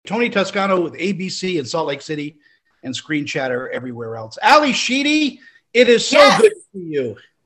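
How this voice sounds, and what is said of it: Loud, yelling voice. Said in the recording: “I'm yelling.”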